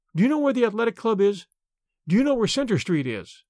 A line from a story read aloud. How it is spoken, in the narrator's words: she cried